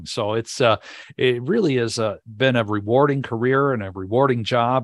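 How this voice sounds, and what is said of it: Smooth broadcaster-like radio voice. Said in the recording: “you do have a great radio voice.”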